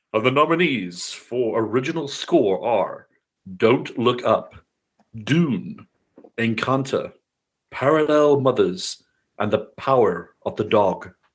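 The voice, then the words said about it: Booming announcer voice. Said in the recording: “I have that really, announcer voice.”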